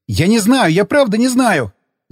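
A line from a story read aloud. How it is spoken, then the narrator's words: Yelling. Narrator (Russian): заорал он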